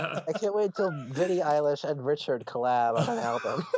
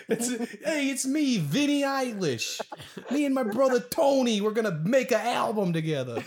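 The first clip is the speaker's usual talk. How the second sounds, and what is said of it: Put-on Guido Italian-American accent. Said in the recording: “With a Guido accent”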